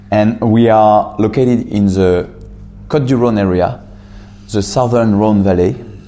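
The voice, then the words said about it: French accent. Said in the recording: “based in France, obviously, you can hear the accent.”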